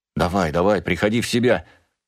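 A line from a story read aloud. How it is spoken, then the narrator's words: Father's anxious muttering. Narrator (Russian): взволнованно бормотал отец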